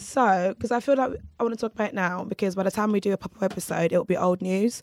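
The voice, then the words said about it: Raspy, husky voice from a cold. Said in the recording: “You sound extra sexy today... I've got a cold. I'm getting a cold... Extra so raspy... a deep voice... not deep, it's raspy. It's like husky... It's a sexy rasp.”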